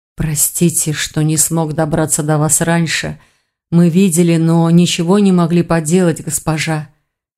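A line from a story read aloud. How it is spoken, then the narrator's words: Hoarse mutter. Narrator (Russian): сипло пробормотал мужчина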